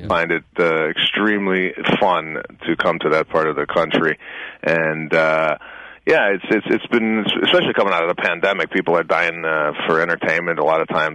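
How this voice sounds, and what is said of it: Chicago accent. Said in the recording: “He's got that Chicago accent”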